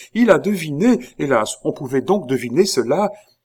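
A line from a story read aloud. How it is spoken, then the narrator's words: Exclaimed. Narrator (French): s'écria Marie-Antoinette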